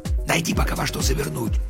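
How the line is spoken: Male whisper. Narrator (Russian): прошептал он

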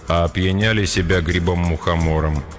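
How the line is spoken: Even voice. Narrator (Russian): ровным голосом проговорил Петр

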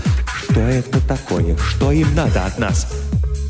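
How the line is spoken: Trembling voice. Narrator (Russian): Хаббард дрожащим голосом спросил

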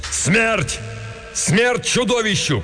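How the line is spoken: Shouted. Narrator (Russian): крикнул Беарвальд

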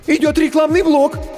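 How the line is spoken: Frightened squeak. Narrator (Russian): испуганно пискнул первый ассистент

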